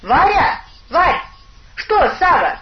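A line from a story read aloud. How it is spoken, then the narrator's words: Shouted. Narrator (Russian): крикнул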